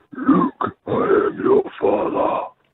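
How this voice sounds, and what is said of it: Good Darth Vader character voice. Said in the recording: “give us your Darth... That is good. That is very good... officially do a Darth Vader impression”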